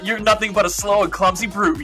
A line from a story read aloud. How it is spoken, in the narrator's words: yelled Cal Cappy